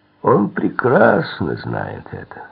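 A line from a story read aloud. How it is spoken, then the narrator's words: Mocking reply. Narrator (Russian): ответил Карлос насмешливо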